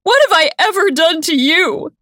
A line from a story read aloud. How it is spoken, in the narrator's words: She yells